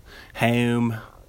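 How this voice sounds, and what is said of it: Baltimore accent. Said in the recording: “That's a Baltimore accent.”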